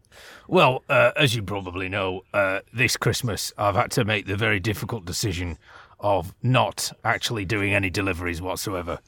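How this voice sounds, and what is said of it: Santa Claus voice, northern twang. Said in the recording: “your accent is a bit... It's not what I would have expected from the real Santa Claus ... this is an authentic Laplandese accent ... I've just developed a bit of a northern twang”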